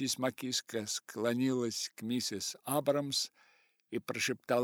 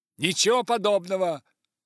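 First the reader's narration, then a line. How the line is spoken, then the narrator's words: Rude declaration. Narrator (Russian): грубо заявил мистер Маккиска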